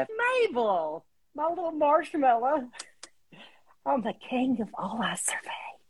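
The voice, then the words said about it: Cartoon villain voice, Southern accent. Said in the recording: “do his voice. It was so fun to do a bad guy, especially a bad guy from the South ... do you feel like doing the voice?”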